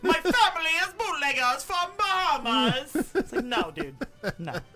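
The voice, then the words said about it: Put-on accent that sounds Italian. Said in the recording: “why do I sound Italian? ... Why is every time I try to do an accent, I sound Italian?”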